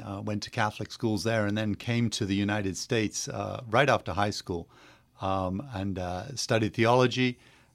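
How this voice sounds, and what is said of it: English accent. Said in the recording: “You may notice an accent. I'm from England originally”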